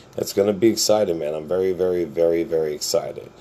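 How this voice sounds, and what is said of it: Flat monotone voice. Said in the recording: “I'm so monotone, but that's just how I am all the time”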